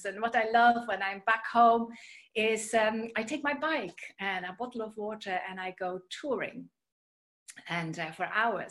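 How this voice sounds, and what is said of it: Dutch accent. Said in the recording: “You may have heard from my accent or my name that I am originally from the Netherlands.”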